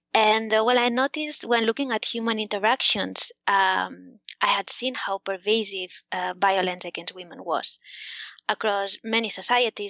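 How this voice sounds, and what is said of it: Spanish accent in English. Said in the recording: “the government of Spain, where I'm from, in case you hadn't noticed from my accent”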